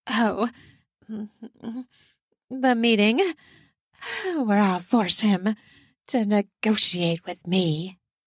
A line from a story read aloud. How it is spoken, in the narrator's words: she says through her panting